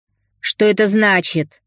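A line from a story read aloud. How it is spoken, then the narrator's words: Barking shout. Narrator (Russian): гаркнула дамочка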